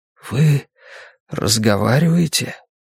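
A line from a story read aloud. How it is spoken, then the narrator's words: Whispered question. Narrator (Russian): шепотом спросил я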